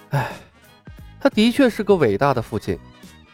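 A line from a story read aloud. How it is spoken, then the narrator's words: Soft sigh. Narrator (Chinese): 李牧微微叹息了一声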